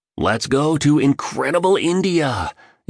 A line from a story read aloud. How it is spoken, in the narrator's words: exclaimed the billionaire energetically